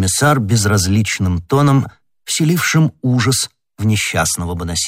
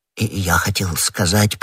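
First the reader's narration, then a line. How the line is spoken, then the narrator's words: Awkward mutter. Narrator (Russian): пробормотал Бонасье, заметив, что ответил неудачно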